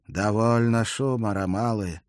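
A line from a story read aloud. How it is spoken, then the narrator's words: Quiet. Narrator (Russian): вроде бы негромко сказал он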